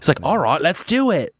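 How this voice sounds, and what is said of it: Put-on British accent sounding Australian. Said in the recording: “I think that's Australian. You're a British accent... That's Australian. Yeah, that was Australian... British accent sounded Australian... That wasn't good.”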